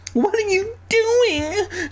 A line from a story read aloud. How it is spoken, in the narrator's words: She shrieked, always shrieking these aunts